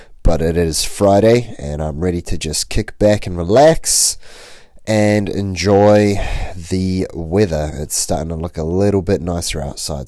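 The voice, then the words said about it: Voice sounds off, flu-affected. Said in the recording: “my voice sounds a little off. I am recovering from the flu”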